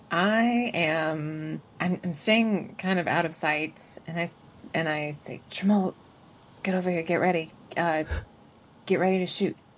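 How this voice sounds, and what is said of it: Hushed, lowered voice, near whisper. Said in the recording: “I love that you're still whispering... It's not quite whispering... it's keeping my voice down... I'm not yelling”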